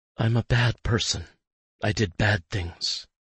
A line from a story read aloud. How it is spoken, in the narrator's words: she mutters, her tone emotionless, numb